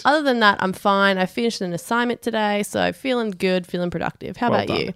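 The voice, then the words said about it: Slightly congested voice from a cold. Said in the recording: “I've got a bit of a cold”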